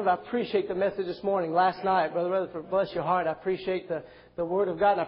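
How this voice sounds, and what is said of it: Mixed accent with French-sounding elements. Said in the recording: “that's part of the accent that you hear. The other part's the French part. ... The Frenchy part coming out.”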